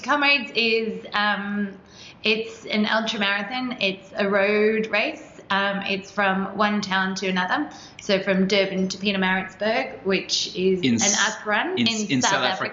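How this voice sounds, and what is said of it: South African accent. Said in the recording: “If you couldn't hear from her accent”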